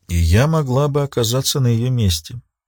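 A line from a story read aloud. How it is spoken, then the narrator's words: Quiet. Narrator (Russian): тихо произнесла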